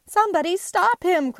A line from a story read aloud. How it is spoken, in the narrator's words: cried the baker